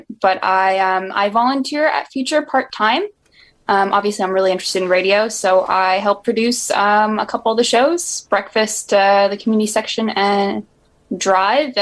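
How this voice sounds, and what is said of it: American accent. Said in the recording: “I am a media graduate from the U.S. Hence my. My accent might sound a little different”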